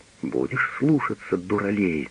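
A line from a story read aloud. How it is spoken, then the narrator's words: Angry tender muttering. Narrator (Russian): бормочет с гневной нежностью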